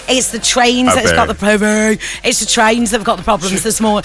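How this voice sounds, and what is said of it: Put-on Brummie accent. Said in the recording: “What are you doing in a Brummie accent for?”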